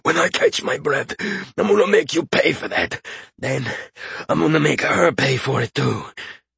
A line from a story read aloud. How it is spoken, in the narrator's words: The gasping man looked at him with fury in his eyes and said